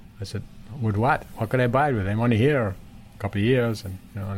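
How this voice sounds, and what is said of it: Usual voice. Nothing is said of it.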